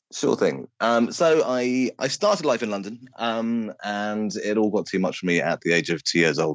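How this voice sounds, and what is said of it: British accent. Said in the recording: “This show features 100% British accents.”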